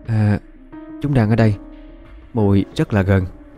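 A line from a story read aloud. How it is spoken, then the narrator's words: Frightened very soft voice. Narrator (Vietnamese): Hồng Quán sợ, nó nói rất khẽ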